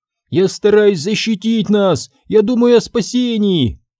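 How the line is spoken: Shouted reply. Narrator (Russian): крикнула Сабрина в ответ

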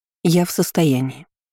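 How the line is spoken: Calm retort. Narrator (Russian): спокойно парировала я

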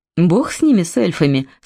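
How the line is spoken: Plain. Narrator (Russian): сказал Берн

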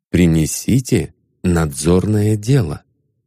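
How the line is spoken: Soft command. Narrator (Russian): мягко приказали

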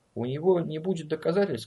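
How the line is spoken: Gentle. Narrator (Russian): сказал он мягко

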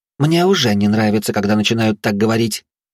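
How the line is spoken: Grumble. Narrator (Russian): проворчала Ольга

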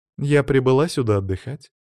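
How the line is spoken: Calm. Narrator (Russian): спокойно ответила девушка

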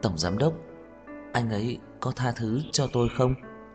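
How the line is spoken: Weak, soft, amused question. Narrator (Vietnamese): Khả Hinh cũng khó nín cười, suy yếu, nhẹ nhàng hỏi

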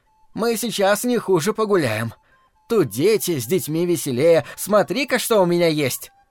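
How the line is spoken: Loud. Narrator (Russian): матушка громко сказала

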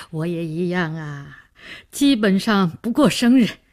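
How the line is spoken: Smiling. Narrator (Chinese): 梅启良笑笑说

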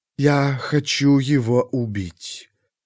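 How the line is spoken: Calm voice. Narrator (Russian): все тем же спокойным голосом проговорила Кильмандарос

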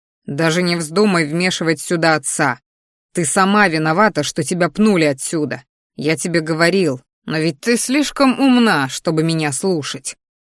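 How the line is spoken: Growling. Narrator (Russian): рычал я

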